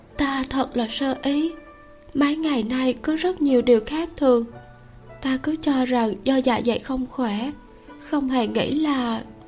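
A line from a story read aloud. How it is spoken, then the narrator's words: Sad, slightly relieved voice. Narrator (Vietnamese): Kiều Sơ Huân yên tâm hơn một chút, giọng nói buồn buồn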